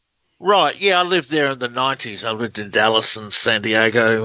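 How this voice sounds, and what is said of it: Australian accent. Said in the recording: “Australian researcher. Love the accent. ... You have a great one.”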